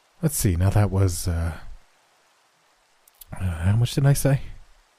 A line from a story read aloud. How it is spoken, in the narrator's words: he muttered